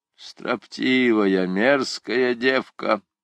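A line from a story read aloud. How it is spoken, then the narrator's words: Grumbling old man. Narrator (Russian): проворчал какой-то старый судья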